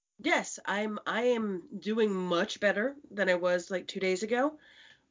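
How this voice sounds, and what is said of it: Sick, slightly off-sounding voice. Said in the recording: “You sound a bit off. ... I have a cold.”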